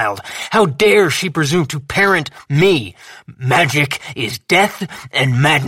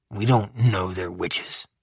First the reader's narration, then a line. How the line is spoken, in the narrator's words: I muttered